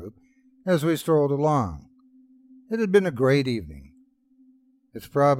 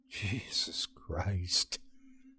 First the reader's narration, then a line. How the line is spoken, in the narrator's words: muttered under my breath